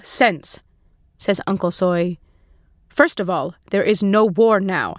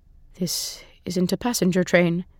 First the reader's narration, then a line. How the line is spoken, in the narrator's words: he whispers